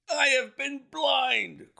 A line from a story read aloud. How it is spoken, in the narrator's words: cried the colonel